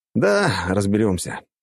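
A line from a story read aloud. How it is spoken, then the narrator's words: Sigh. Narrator (Russian): вздохнул я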